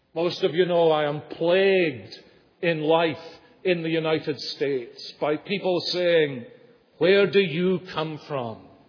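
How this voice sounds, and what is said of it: Non-American, Scottish-like accent. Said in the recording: “trying to guess the accent... most people seem to associate it with Sean Connery”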